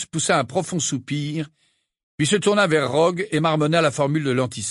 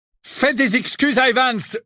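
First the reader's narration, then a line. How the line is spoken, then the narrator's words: Menacing roar. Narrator (French): rugit James d'une voix menaçante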